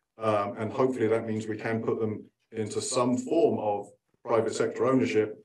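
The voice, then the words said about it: Non-American, likely British accent. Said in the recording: “Despite my accent, I'm actually not from Fresno. ... in the UK”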